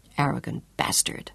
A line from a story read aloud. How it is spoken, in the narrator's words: Claudia whispered bitterly